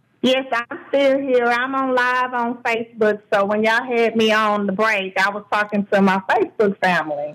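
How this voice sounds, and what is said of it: Texas accent. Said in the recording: “you can hear that Texas accent come out loud and clear”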